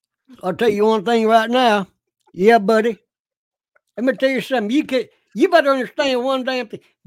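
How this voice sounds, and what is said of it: Imitated accent of a protester. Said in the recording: “Can you do his accent? ... The guy with the eye patch.”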